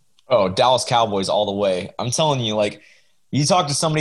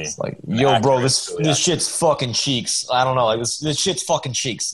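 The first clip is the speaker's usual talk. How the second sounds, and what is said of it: Attempted Philadelphia accent. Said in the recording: “what's a Philly accent? Like, give me a Philly accent here so I can, like, try to copy it.”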